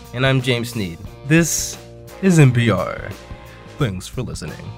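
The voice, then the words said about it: Official radio announcer voice. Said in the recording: “It's my official radio voice.”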